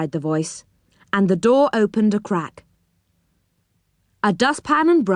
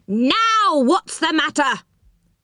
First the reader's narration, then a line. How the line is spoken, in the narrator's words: yelled the voice angrily